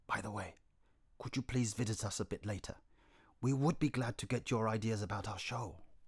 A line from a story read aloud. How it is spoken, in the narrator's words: Yang then asked Yin in a whisper